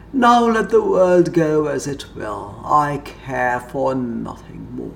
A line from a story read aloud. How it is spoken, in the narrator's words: with a heavy groan and said